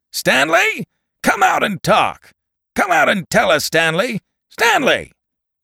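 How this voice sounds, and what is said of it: Booming, shouting broadcast voice. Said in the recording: “A radio voice boomed out of the bright blue sky. ... It shouted.”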